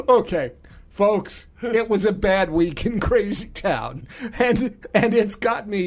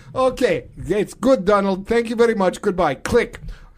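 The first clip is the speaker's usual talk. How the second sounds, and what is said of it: Put-on Russian accent. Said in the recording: “I'm now talking in a Russian accent.”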